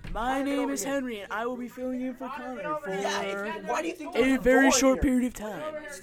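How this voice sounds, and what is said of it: Weird put-on accent. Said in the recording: “Please excuse my weird accent”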